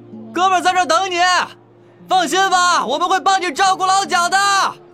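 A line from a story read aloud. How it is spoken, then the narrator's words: Shout. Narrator (Chinese): 宋子琪对着那茫茫人海喊道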